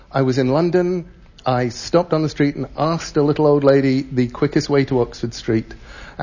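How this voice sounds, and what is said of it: English accent. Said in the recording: “I still have enough of an English accent that all around the world people say to me, "You aren't from around here, are you?"”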